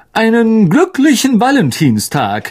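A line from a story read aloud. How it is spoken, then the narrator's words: Calling out. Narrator (German): rief Lockhart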